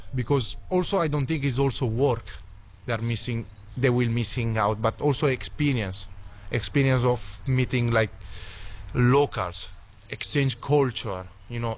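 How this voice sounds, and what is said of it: Italian-accented English. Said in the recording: “an Italian backpacker ... Oh, what a fantastic accent.”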